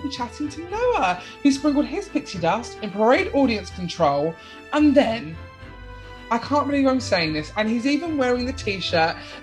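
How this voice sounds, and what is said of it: British accent. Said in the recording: “obviously, I'm from the UK. So for you, I've probably got an accent.”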